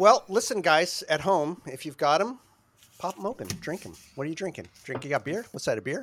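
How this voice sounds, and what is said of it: Usual voice. Nothing is said of it.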